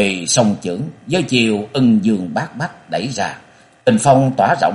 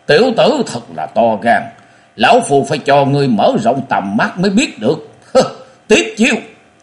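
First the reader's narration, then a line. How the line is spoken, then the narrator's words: Cold laugh, lion's roar shout. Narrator (Vietnamese): lão buông tiếng cười sắc lạnh với sư tử hống rồi quát to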